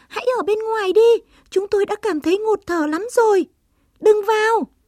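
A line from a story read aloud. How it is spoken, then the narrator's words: Squeaking mouse. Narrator (Vietnamese): Chuột chít chít kêu lên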